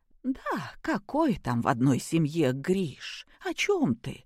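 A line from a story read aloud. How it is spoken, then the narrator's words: Quiet sigh. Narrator (Russian): тихо вздохнула Любовь Сергеевна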